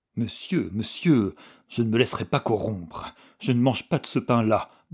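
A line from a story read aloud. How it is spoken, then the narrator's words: Tragic, grotesque stammer. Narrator (French): balbutia Klutz, tragique et grotesque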